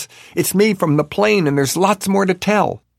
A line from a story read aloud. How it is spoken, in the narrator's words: yells